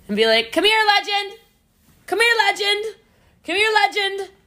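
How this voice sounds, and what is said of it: Yelling, calling out loudly. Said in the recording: “keep yelling”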